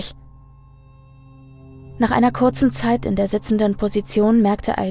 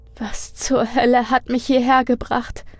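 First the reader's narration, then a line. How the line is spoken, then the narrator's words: Whimpering to herself. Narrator (German): fragte Aline sich wimmernd selbst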